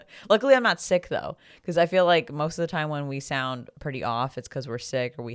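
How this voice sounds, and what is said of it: Raspy, rough voice. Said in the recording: “lost my voice recently because I was yelling a lot. So now my voice probably sounds a little raspy. ... if I sound a little rough”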